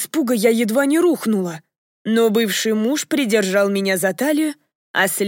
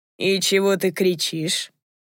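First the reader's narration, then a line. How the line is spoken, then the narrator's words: Silky, insinuating. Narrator (Russian): вкрадчиво спросил его Крейн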